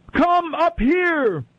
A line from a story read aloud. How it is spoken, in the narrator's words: a loud voice shouted from heaven